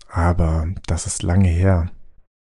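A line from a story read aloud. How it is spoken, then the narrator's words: Quiet speech. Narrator (German): sagte er leise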